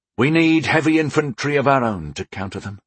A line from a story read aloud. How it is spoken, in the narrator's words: I sighed